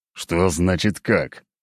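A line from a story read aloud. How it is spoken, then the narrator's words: Through gritted teeth. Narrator (Russian): также сквозь зубы процедил Леонид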